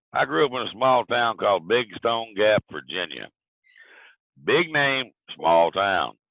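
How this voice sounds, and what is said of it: Southern US accent. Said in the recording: “lovely southern lilt”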